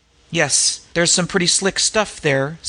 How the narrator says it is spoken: said Danglar, with an appealing chuckle

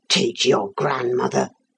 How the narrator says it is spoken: The groom went out, saying under his breath

